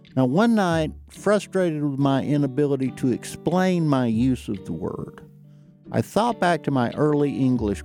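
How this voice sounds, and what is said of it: Distinct regional accent. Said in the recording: “an accent like this one existing in Manhattan”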